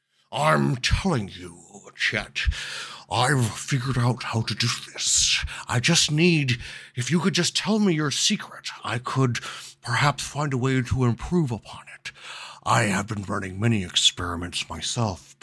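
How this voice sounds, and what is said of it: Character voice of A.A. Ron Hubbard. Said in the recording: “You hear the voice of A.A. Ron Hubbard.”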